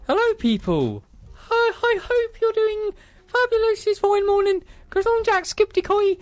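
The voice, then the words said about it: Poor attempt at Irish accent. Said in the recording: “I can't do no Irish accent... I'm really bad at accents... That was appalling.”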